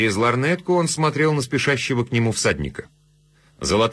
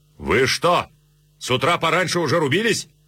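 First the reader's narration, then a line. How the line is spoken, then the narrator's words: Shouted. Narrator (Russian): царь крикнул ему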